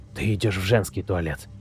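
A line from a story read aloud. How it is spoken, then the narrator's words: Whispered. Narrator (Russian): прошептал я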